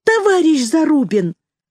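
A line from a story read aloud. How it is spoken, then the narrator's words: Exclamation. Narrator (Russian): воскликнула Полина Аркадьевна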